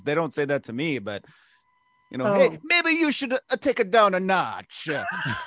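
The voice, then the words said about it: Failed Greek accent sounding Italian. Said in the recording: “That's not a Greek accent. I can't do a Greek accent... You just went back to Italian.”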